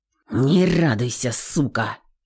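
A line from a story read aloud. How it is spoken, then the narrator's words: Hissed. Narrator (Russian): прошипел он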